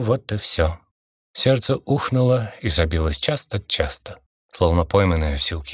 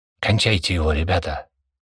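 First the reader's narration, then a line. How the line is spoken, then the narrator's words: Hissing with suppressed rage. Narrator (Russian): Михайлов с трудом сдерживая ярость, зашипел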